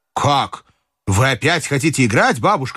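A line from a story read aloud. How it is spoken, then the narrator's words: Shout. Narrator (Russian): крикнул я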